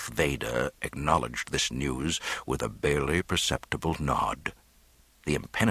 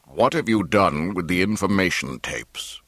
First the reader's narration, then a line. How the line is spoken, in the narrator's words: Vader rumbled